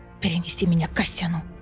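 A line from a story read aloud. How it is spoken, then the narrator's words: Whisper. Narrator (Russian): прошептала она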